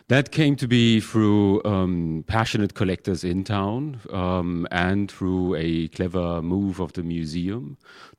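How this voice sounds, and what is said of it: Non-local foreign accent. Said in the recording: “you can clearly hear from my accent that I'm not quite from around this area”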